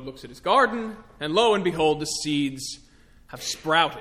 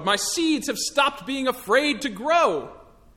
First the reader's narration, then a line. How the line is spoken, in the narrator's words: shouts Toad